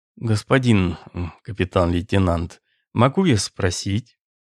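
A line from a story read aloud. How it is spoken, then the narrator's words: Sighing question. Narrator (Russian): адвокат вздохнул и спросил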